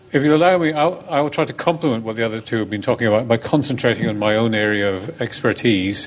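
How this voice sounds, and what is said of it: Slight Scottish accent. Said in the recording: “at least I have a touch of a Scottish accent.”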